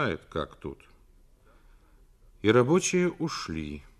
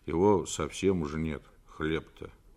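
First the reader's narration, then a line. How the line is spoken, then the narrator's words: Muttering. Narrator (Russian): Федя пробурчал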